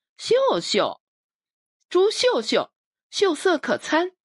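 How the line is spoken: Giggling, playful girl. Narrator (Chinese): 女孩笑嘻嘻说

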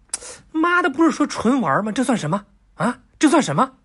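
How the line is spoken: Angry. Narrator (Chinese): 李世民怒了

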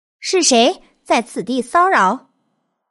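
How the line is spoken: Loud call. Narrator (Chinese): 道童高声说道

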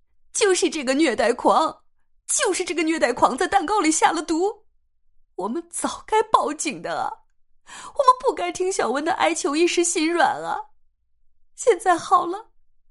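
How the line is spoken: Wailing, scolding couple. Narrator (Chinese): 刘建国夫妇一路哭嚎着骂道

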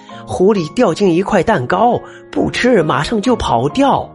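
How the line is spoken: Loud shouting. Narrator (Chinese): 坏乌鸦又大声叫了起来

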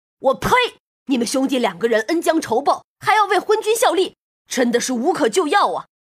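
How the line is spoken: Furious cursing. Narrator (Chinese): 黄飞虎怒目圆睁，大骂

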